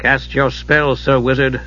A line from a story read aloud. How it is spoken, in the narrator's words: Steel said coolly